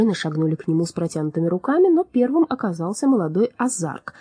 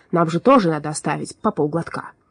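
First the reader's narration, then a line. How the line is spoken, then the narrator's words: Snorting. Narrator (Russian): Азарк хмыкнул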